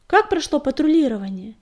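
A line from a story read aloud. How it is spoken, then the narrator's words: Distant shout. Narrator (Russian): издалека крикнул он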